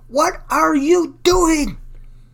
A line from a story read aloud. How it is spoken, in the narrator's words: shouted